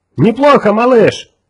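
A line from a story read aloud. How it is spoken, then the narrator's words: Shouted. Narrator (Russian): крикнул Отто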